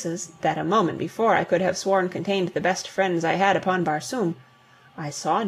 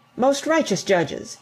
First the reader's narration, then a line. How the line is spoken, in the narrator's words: he exclaimed